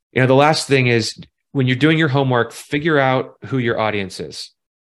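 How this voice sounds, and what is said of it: Raised, louder voice. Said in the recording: “I feel like I just raised my voice there.”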